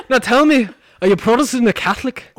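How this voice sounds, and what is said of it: Put-on accent. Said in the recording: “that was such a great accent”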